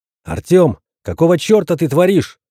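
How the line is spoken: Shout. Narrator (Russian): выкрикнул я

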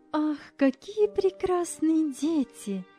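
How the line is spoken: Exclaiming woman. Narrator (Russian): воскликнула супруга Андрея Николаевича

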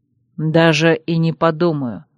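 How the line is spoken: Calm reply. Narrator (Russian): спокойно ответил

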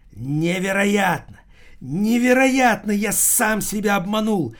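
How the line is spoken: Loud shout. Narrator (Russian): закричал Томмазо Кампанелло на всю улицу

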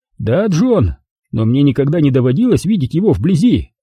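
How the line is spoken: Exclamation. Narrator (Russian): воскликнул Лайнс

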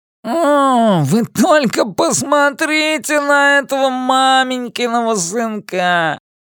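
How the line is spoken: Groaned. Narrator (Russian): простонал Генри

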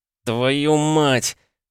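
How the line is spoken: Muttered through teeth. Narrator (Russian): процедил я

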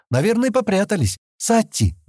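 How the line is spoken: Loud call. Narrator (Russian): громко позвала

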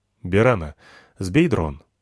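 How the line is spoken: Quiet. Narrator (Russian): сказал я тихо

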